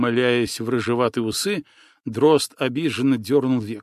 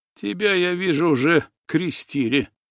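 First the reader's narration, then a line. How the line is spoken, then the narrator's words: Smirking grunt. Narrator (Russian): хмыкнул Иван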